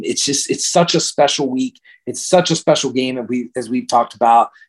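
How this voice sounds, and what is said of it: Excited voice. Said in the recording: “hopefully you can hear the excitement in my voice... Yeah, I can.”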